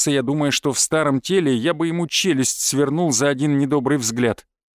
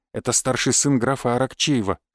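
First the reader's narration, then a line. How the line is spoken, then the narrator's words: Whispered in the ear. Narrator (Russian): шепнул он мне на ухо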